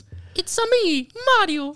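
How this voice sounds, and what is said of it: Cartoonish Mario character voice. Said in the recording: “Do you want to hear my Mario impression?”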